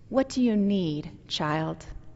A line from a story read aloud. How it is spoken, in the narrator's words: The tall, bearded man smiled gently and he asked